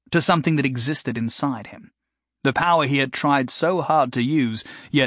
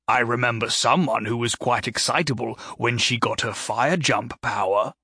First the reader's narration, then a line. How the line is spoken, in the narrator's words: Gary said